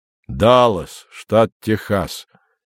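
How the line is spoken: Youth, surprisingly deep bass, shy. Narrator (Russian): неожиданно глубоким басом проговорил юнец, стеснительно улыбаясь

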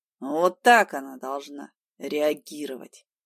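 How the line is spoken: Hoarse, surprisingly calm. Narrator (Russian): Хрипло и на удивление спокойно сказал Покровский

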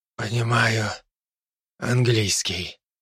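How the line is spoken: Old man's quiet wheeze. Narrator (Russian): тихо прохрипел старик

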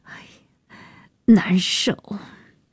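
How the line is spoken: Breathless apologetic complaint. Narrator (Chinese): 安夜喘，抱歉地诉苦

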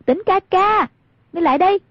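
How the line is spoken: Calling out loudly. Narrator (Vietnamese): Hoàng Dung cao giọng gọi

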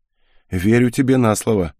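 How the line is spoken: Wry snort. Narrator (Russian): хмыкнул я

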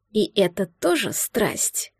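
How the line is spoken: Angry breathy whisper. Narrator (Russian): Зло прошептал между поцелуями, обдавая ее губы своим дыханием

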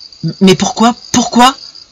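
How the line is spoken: Stammering, choking with rage. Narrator (French): balbutia-t-il, suffoquant de rage

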